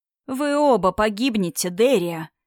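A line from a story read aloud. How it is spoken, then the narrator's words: Heavy sigh. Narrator (Russian): Инетар тяжело вздохнул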